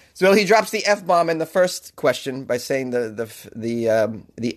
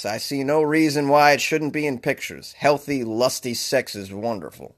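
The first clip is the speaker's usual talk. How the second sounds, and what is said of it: John Wayne impression. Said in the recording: “my John Wayne impression”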